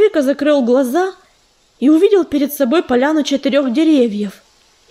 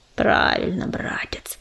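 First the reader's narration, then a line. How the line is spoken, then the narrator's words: Hissing. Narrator (Russian): зашипел Коршун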